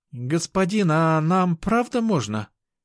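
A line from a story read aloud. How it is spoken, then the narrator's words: Uncertain question. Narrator (Russian): неуверенно спросила Айка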